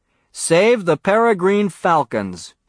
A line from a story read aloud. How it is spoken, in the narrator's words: he said in a loud, clear voice